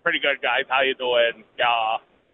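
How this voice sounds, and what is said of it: Imitates another person's voice. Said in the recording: “That's the best Ben impression you've got?”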